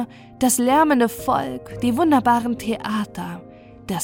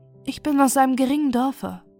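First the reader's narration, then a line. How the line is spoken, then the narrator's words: Sad. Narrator (German): sagte sie traurig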